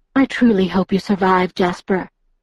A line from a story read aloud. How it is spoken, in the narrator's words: she said in her gentle voice